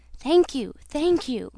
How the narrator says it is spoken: exclaimed

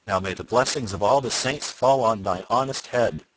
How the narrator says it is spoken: cried the butcher right joyfully

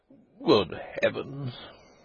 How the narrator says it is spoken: murmured the doctor again

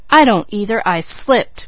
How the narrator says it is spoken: cried James

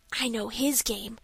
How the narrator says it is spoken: whispered Dick

